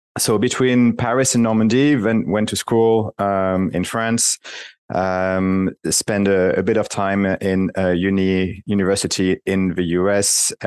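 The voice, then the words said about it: French accent in English. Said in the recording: “I haven't been able to get rid of the French accent. I've tried.”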